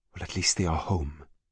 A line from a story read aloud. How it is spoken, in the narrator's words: Marie whispered to Jackman